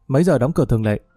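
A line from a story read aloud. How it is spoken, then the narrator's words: Plain. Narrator (Vietnamese): Phong hỏi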